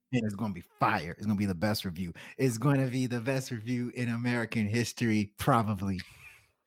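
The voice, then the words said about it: Donald Trump impression. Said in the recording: “you do a weekly Trump impression”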